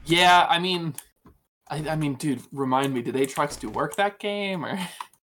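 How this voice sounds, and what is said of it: Sarcastic tone. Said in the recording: “I was being sarcastic.”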